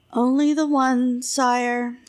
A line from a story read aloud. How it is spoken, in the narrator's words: sighed the artist